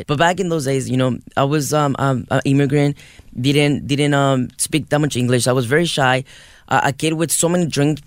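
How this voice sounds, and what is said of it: Noticeable non-native English accent. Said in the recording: “You can hear it. I have a huge accent ... you have an accent. I don't know how huge it is”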